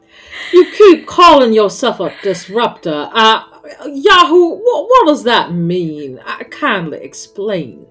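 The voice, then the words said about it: Put-on Southern US accent. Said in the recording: “slip into a southern accent”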